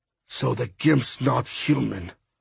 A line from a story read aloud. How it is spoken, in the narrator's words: Bird finally muttered